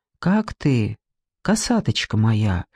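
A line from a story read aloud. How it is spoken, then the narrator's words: Tender question. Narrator (Russian): Спросил он так ласково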